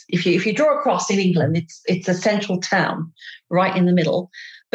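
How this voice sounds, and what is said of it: British accent, north of England. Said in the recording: “I'm British. I have a lousy British accent. I come from the north of England, a place called Derby”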